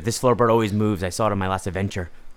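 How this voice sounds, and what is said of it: Put-on Irish accent. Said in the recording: “Oh, is that Irish? ... Did that sound Irish?”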